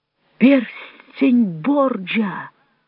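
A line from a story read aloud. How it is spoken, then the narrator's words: Exclamation. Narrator (Russian): воскликнул Джованни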